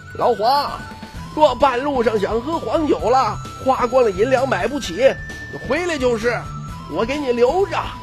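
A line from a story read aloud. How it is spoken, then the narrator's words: Loud farewell shout. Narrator (Chinese): 徐凤年 扯开嗓子喊道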